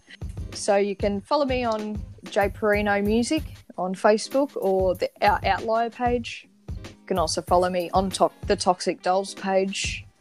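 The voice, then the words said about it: Speaks with a non-American accent. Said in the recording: “I really love your accent.”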